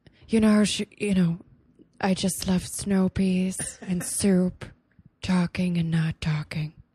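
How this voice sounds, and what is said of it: Jennifer Coolidge impression. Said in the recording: “It's from Jennifer Coolidge.”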